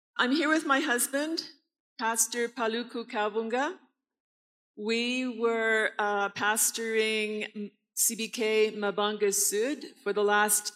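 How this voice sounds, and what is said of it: Speaks with a noticeable accent. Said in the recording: “you might not be used to my accent”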